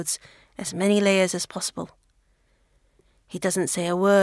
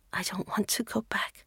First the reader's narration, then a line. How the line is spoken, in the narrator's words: Maylin whispers